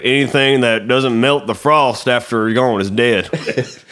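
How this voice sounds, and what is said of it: Put-on Southern accent. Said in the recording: “He wasn't that southern. That's my accent.”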